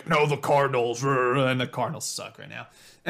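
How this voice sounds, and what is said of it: Imitates another person's voice. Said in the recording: “that was my impression of Ronnie... It was pretty far off”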